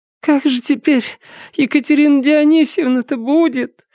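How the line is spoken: Sobbing, interrupting. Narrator (Russian): всхлипнула Августа Николаевна, прерывая мужа

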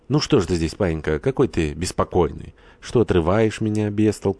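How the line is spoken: Affectionate speech. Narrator (Russian): заговорила ласково

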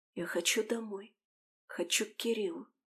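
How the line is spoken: Soft whisper. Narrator (Russian): тихо прошептала Алиса

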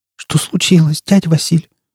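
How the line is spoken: Trembling voice. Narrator (Russian): дрожащим голосом спросила она

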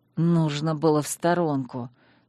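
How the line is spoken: Hissing to himself. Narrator (Russian): для себя прошипел муж

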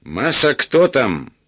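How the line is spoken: Shout. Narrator (Russian): крикнул Эраст Петрович

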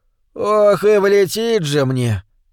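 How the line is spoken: Sad continuation. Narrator (Russian): печально продолжал

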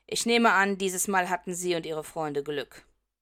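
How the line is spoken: Growling. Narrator (German): knurrt

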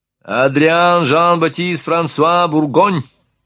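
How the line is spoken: Ringing male voice. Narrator (Russian): представился он звонким голосом

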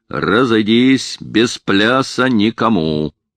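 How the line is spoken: Sly bass shout. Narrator (Russian): хитро улыбается и кричит басом

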